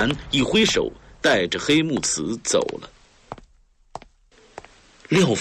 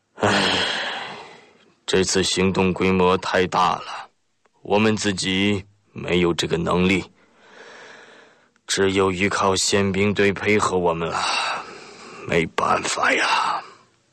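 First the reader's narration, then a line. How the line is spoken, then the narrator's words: Sighing. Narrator (Chinese): 中泽 叹了口气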